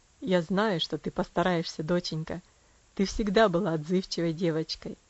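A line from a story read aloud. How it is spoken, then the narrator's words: Tender. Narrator (Russian): нежно произнес он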